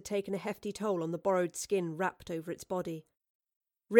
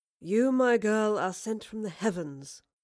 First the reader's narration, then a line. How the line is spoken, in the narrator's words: Marlowe purred